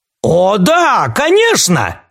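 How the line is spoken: Exclaimed, king. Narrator (Russian): воскликнул король

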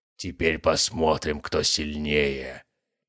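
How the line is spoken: Distorted growl. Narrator (Russian): прорычал он искаженным голосом

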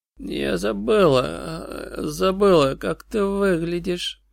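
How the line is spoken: Creaky voice. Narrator (Russian): проскрипела Сьюзи

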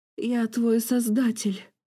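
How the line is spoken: Groaning. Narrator (Russian): перемещая слова со стонами

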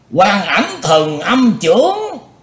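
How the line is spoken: Joyful group cry. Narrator (Vietnamese): Các cao thủ ngũ đại phái, cả thải đều vui mừng kêu lên

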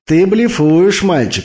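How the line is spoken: Laughing. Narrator (Russian): засмеялся Наварро

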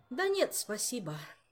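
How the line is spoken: Sighing. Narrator (Russian): вздохнул король

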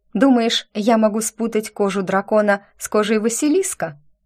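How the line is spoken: Calm inquiry. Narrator (Russian): спокойно осведомилась

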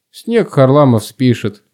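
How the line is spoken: Snort. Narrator (Russian): фыркнул Финн

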